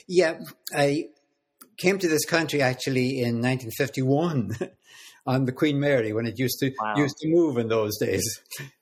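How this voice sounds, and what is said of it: Irish accent. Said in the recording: “I know that you're a native of Ireland ... You could probably tell from my accent.”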